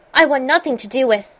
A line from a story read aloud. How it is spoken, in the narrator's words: he started hotly